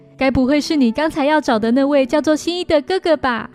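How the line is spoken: Sly, scheming question. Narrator (Chinese): 柯南一脸奸笑地问他说

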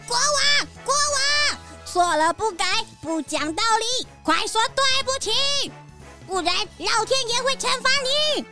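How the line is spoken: Loud shout. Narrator (Chinese): 小鸭大声喊

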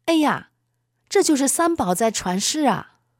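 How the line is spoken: Involuntary exclamation. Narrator (Chinese): 我不自觉地喊了一声

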